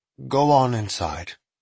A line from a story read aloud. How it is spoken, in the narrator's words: Manders said kindly